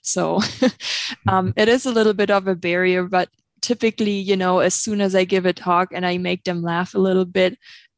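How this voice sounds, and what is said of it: Obvious non-Montana accent. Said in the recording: “I do have an accent, so it's very obvious that I'm not Montana bred.”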